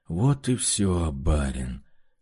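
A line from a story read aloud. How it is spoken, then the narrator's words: Hoarse voice from behind. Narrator (Russian): хриплым голосом произнес у меня за спиной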